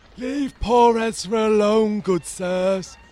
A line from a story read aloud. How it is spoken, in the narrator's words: the man whined piteously